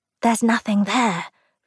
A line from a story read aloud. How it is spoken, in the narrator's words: Ruth whispered